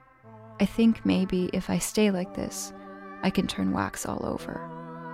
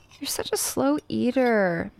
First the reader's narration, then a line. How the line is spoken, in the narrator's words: May whines at Jen